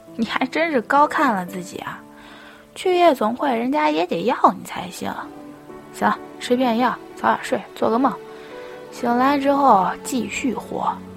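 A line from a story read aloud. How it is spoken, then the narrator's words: With a laugh. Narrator (Chinese): 他笑了一声，说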